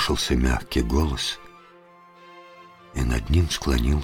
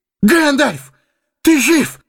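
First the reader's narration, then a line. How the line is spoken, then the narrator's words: Exclaimed. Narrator (Russian): воскликнул он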